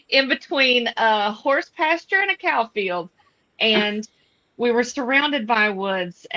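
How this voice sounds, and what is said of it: Southern US accent. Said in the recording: “here in Dalton, Georgia ... but still very far south, which I'm sure you'll hear it in my voice”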